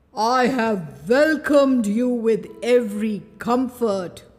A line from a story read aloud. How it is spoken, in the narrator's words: he growled